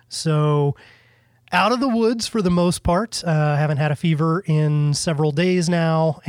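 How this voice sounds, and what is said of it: Weak, sick-sounding voice. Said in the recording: “as you can tell, my voice is a little bit not all completely there”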